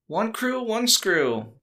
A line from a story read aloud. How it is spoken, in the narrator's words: May cried back as she stormed off